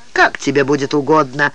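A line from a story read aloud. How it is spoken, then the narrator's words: Cold reply. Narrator (Russian): холодно ответил судья Ди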